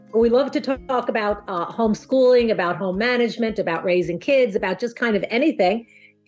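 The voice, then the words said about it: New York accent. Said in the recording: “we both have New York accents. By the end of this podcast, you will know how to talk like you're from New York.”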